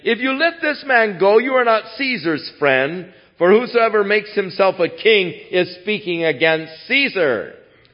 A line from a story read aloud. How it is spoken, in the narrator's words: the Jews cried out, saying